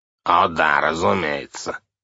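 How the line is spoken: Grumbling. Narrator (Russian): проворчал

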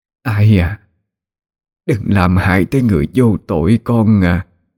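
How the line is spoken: Weak trembling old woman. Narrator (Vietnamese): bà cụ run rẩy, thều thào cất tiếng gọi

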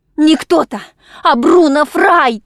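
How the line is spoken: Shout. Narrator (Russian): крикнула

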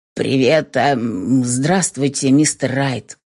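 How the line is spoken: Confused mutter. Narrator (Russian): Буркнул в ответ, ни хрена не понимая, что должен делать и как нужно реагировать

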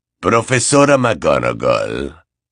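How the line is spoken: Exclamation. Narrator (Spanish): exclamó Snape

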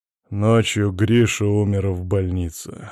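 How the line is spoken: Hollow, muffled. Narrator (Russian): глухо сказал он

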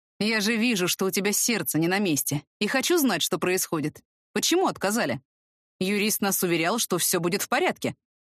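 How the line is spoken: Indignant, tight-lipped. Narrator (Russian): возмущенно поджимает рот

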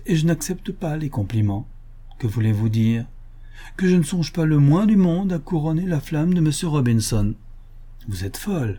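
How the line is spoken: Laughing. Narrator (French): dit en riant Millicent

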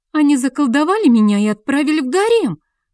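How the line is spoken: Indignant. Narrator (Russian): Возмущенно встрепенулась Алексия

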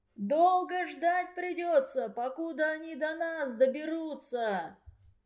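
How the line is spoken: Delegate shouting after applause. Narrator (Russian): Крикнул один из делегатов, когда затих гром аплодисментов

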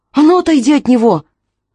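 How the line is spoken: Shout. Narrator (Russian): крикнула Аманда

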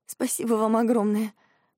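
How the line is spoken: Sobbing. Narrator (Russian): говорю, всхлипывая

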